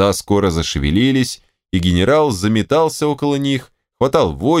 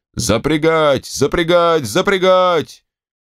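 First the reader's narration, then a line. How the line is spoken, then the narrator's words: Shouting. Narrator (Russian): Алексей Алексеевич кричал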